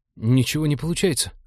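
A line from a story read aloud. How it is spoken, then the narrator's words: Reported. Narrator (Russian): доложил тот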